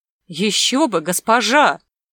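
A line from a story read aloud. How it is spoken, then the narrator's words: Incredulous joyful exclamation. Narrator (Russian): воскликнул Магута, не в силах поверить в свою удачу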